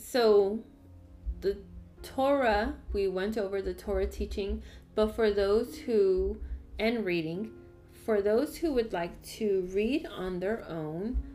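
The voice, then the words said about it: Strong accent. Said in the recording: “I don't know why I have such a strong accent today.”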